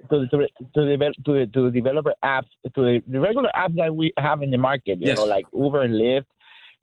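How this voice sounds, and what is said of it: Speaks with a noticeable accent. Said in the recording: “Sorry, my accent.”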